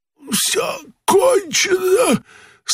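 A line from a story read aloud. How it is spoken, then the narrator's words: Weak, faint voice. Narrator (Russian): Слабым голосом сказал кот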